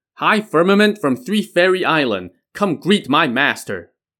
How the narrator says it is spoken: the White Crane acolyte shouted

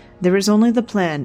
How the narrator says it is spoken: Illyn said

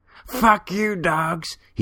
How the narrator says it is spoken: he shouted through gap teeth

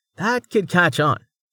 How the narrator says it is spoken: Amelia laughed

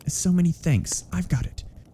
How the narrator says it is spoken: Miss Stoner murmured

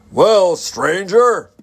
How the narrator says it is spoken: he hailed in a mighty voice that made Joe's ears ring

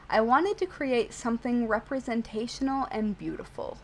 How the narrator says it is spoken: said

